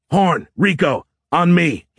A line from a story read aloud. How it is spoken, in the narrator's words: he yelled